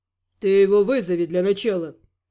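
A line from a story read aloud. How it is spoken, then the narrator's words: Gloomy advice. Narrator (Russian): мрачно посоветовал Гал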